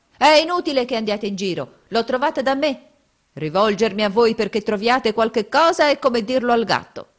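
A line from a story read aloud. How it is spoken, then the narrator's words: Shouting. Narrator (Italian): scoprendo di star sopra la giacca gridava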